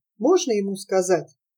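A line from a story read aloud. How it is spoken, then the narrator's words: Hesitant, quiet question. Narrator (Russian): Сара несколько мгновений колебалась, затем тихо спросила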